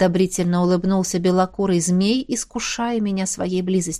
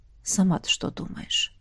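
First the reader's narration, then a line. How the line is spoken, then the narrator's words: Chilling whisper. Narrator (Russian): спросил шепотом, от которого по коже побежали мурашки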